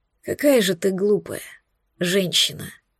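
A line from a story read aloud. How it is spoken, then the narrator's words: Quiet. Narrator (Russian): Ответил он тихо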